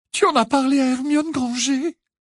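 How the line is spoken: Indignant, shrill, tearful. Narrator (French): s'indigna Cho d'une voix aiguë, le visage brillant de larmes

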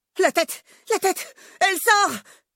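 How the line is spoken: Shouting. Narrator (French): hurle à son tour Antoine

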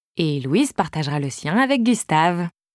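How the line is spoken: Sneering laugh. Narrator (French): j'ajoute en ricanant

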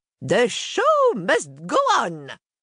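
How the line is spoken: Shout. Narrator (French): crie-t-elle

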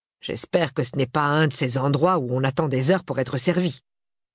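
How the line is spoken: Grumbles. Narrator (French): bougonne Marius

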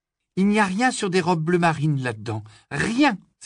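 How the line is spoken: Exclaiming. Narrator (French): s'écria

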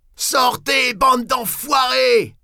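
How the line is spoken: Yelled, head thrown back. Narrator (French): a hurlé, la tête en arrière

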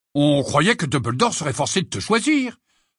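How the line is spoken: Indignant tone. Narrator (French): ajouta George d'un ton indigné

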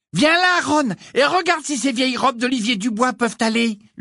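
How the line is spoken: Shouting. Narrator (French): lui cria Cathy Bell

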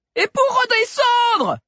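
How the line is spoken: Shouted. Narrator (French): cria Sabi

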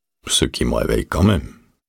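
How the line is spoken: Muttered. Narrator (French): marmonna Dick

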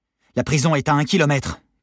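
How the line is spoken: Shouted. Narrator (French): cria Jérémy

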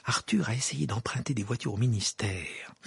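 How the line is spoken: Whispered in ear. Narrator (French): murmura Madame Wesley à l'oreille de Harry

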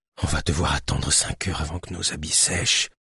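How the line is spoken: Whispering in ear. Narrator (French): chuchota Lilio à l'oreille de Cléo

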